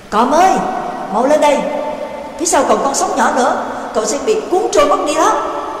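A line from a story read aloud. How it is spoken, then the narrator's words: Urgent call from afar. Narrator (Vietnamese): Dương ở đuôi thuyền kêu lên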